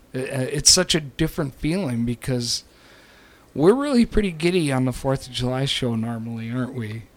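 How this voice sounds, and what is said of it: Voice sounds sick and unwell. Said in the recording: “as you can tell from my voice ... I'm feeling better than I sound, although I'm not feeling 100%. It's not as bad as it sounds”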